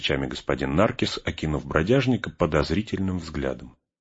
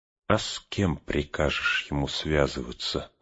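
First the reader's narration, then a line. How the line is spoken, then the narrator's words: Vagabond muttering through teeth. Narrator (Russian): сквозь зубы процедил бродяжник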